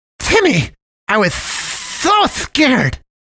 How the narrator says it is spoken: wheezed the giant ball of ginger fluff

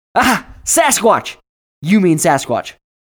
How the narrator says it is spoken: Bucky shouted

